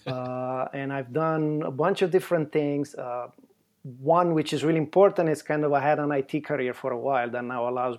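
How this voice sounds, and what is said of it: Italian accent. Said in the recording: “you've got that awesome Italian accent”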